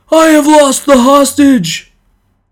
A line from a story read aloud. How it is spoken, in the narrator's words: The man who had lost him cried out in a loud voice